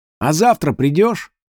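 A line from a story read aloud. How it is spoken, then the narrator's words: Boy shouting. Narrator (Russian): один из мальчишек крикнул Амату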